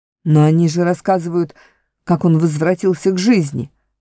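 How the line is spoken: Sharp reply. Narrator (Russian): резко ответил барсук

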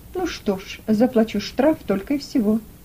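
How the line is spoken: Calm reply. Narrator (Russian): спокойно ответил Халиды

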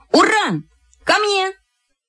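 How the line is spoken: Loud shout. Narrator (Russian): как крикну

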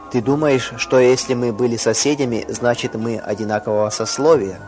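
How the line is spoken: Plain. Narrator (Russian): спросил Казима

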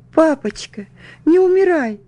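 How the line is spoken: Sobbing. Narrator (Russian): всхлипывала я

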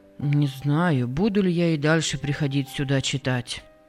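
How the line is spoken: Dejected. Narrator (Russian): отозвался Джек уныло

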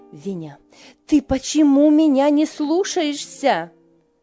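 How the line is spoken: Shouting. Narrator (Russian): крикнула она

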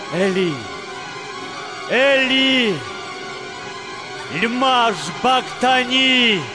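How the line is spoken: Loud cry. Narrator (Russian): Иса громко крикнул

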